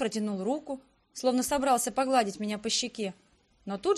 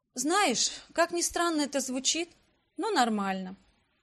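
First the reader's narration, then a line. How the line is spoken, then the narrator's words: Sighing admission. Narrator (Russian): вздохнув, призналась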